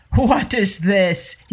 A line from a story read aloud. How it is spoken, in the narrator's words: began to laugh